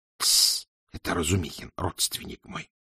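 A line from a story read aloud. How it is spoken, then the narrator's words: Whispered. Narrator (Russian): шепнул пристав помощнику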